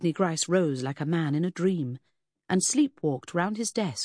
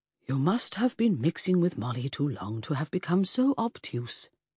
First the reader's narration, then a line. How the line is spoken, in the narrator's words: said kindly